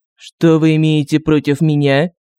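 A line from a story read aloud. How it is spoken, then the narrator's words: Icy tone. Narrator (Russian): Ледяным тоном поинтересовался агент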